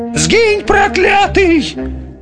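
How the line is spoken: Terrified yell. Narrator (Russian): Не стерпев ужаса, заорал Хамабрут не своим голосом

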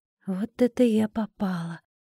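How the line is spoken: Muffled whisper. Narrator (Russian): прошептала я, прикрыв ладонью рот

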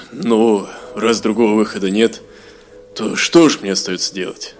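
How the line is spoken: Grumbling. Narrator (Russian): проворчал Гилрой

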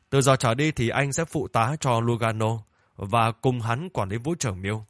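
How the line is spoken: Loud, instructing. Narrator (Vietnamese): Lưu Miền lớn tiếng gọi Louis lại đây, nói với hắn

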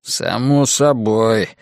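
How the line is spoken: Gloomy reply. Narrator (Russian): мрачно ответил Ллойд

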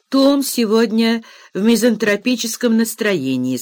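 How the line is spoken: Plain. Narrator (Russian): сказал мистер Хартхаус

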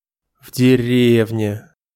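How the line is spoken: Sighing. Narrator (Russian): вздохнул сержант

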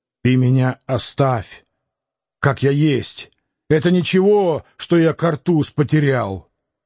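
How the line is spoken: Loud elderly man. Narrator (Russian): пожилой человек громко говорил

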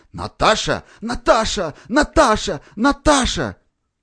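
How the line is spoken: Hoarse moaning from bed. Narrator (Russian): Неслись с кровати хриплые стоны

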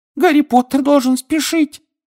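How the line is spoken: Squeak. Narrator (Russian): пискнул Добби

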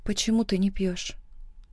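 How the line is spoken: Quiet question. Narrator (Russian): спрашиваю тихо

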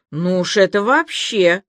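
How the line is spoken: Snorting. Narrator (Russian): хмыкнул Илья

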